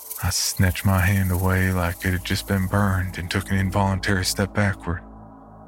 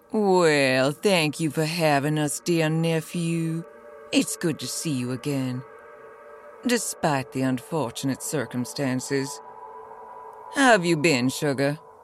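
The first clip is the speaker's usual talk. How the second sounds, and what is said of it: Elegant Southern drawl. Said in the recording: “An elegant southern drawl”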